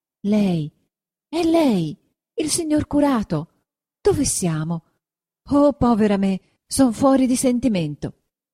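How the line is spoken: Exclamation. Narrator (Italian): esclamò

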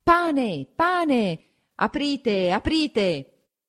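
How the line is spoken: Crowd shouting outside. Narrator (Italian): La gente comincia a affollarsi di fuori e a gridare

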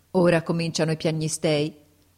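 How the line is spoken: Declamatory tone. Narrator (Italian): disse in tono declamatorio

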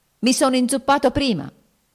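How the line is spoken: Almost shouting. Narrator (Italian): gridò quasi egli

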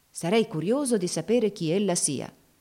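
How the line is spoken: Exclaimed. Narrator (Italian): esclamò finalmente il signor Baird

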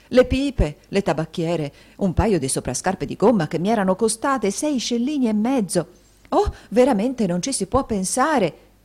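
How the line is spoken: Women shouting together. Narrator (Italian): gridarono le matrone in generale

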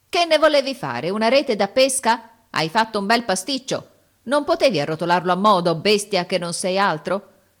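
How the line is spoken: Grumbling with exertion. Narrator (Italian): Brontola di tanto in tanto, affaticandosi

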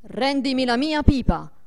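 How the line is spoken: Menacing, commanding shout. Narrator (Italian): una voce minacciosa che gli gridò imperiosamente

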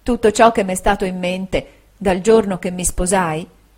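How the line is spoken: Soft, tender voice. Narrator (Italian): ella disse con voce piana, sommessa e tenera

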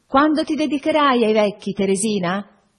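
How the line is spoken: Shouting to someone distant. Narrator (Italian): gridai, per essere inteso da lei, che m'era già lontana

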